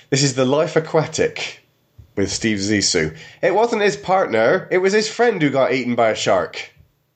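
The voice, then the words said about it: Put-on Somerset English accent. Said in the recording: “I'll do this one in my Somerset accent.”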